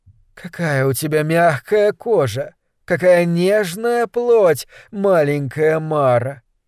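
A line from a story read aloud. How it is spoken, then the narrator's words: Lazy purring. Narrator (Russian): лениво мурлыкала на каре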